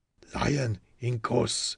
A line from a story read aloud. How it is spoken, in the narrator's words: he whispered